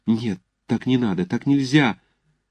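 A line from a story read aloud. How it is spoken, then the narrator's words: Fast, fervent, frightened whisper. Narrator (Russian): Юлия точно в испуге горячо и быстро шептала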